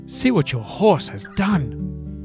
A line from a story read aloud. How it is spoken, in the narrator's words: cried the rich man in anger